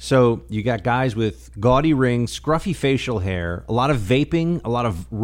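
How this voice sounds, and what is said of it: Usual voice. Nothing is said of it.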